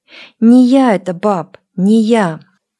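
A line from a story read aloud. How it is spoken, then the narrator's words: Almost pleading. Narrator (Russian): сказал почти умоляющим тоном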